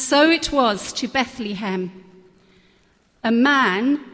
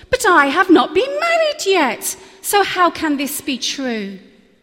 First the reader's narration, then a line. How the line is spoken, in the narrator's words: Mary replied in an astounded voice